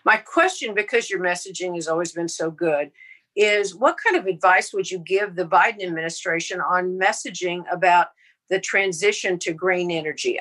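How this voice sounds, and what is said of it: Texas accent. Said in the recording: “I'm sitting here in Houston, Texas, as you can probably tell by my accent”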